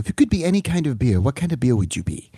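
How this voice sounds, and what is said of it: Weak, prim Barbara Walters impression. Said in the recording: “Is Barbara British? ... That wasn't a great Barbara Walters impression. ... It's very pinky up”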